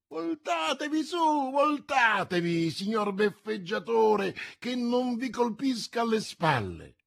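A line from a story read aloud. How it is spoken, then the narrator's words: Shrieking. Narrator (Italian): strillando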